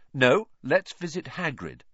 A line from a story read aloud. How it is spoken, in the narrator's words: said Harry firmly